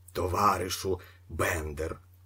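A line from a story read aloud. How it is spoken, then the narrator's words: Leader muttering. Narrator (Ukrainian): пробурмотів предводитель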